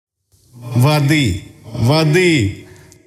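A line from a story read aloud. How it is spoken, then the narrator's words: Hoarse, desperate shout. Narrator (Russian): Словно раненый воин с хрипотой я кричал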